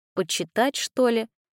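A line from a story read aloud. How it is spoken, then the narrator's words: Mutter. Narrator (Russian): пробормотала Лиза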